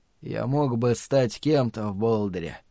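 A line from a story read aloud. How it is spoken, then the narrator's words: Quiet, weary, parched voice. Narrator (Russian): тихо произнес он, не будь он таким усталым и обезвоженным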